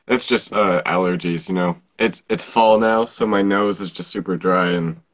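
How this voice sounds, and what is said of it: Sore-throated, scratchy voice. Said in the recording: “I have a sore throat.”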